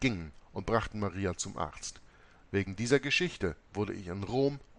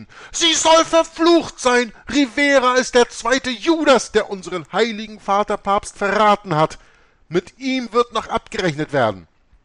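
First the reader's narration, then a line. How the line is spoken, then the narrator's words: Nuns shouting. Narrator (German): Die Nonnen schrien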